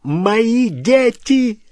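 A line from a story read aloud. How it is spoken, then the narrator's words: Shouted. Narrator (Russian): закричал он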